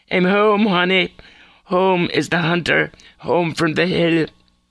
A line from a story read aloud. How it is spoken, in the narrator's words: she shouted with an abrasive laugh